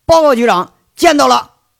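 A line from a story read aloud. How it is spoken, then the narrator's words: Startled, loud. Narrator (Chinese): 邢贵当时一激灵，大声说着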